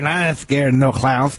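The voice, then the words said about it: Drunk-sounding character voice. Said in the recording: “That's exactly how I was when I drank. Very good imitation.”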